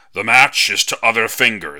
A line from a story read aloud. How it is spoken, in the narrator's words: shouted CB